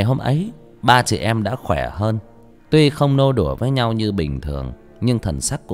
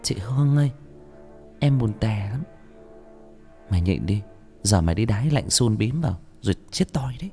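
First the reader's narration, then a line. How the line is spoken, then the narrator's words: Midnight whisper. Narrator (Vietnamese): Nửa đêm, con Hà lay lay vai tôi thì thào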